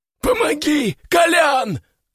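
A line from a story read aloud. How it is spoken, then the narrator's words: Yelling. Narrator (Russian): заорал он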